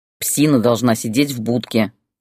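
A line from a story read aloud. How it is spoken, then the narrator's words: Irritated. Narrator (Russian): сказал раздраженно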